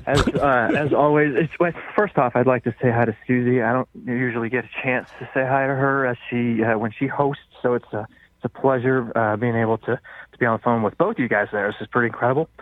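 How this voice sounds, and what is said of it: Out of breath, winded voice. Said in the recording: “picks up his phone out of breath ... I've had pneumonia for the past week.”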